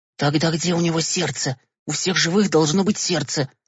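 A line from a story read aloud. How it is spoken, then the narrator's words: Whispered. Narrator (Russian): добавил шепотом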